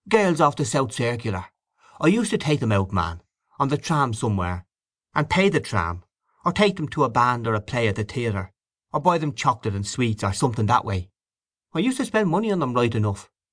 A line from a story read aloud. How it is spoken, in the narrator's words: added, in a convincing tone, as if he was conscious of being disbelieved